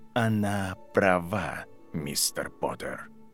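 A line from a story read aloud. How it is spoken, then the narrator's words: Quiet. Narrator (Russian): тихо сказал Северус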